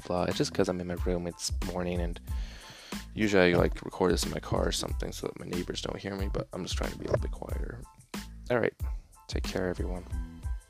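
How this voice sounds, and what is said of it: Quiet, subdued voice. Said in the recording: “my voice is, like, really, like, quiet”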